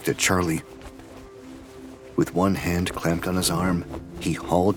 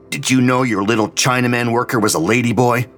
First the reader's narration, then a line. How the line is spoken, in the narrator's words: he snarled back at Gary Cooper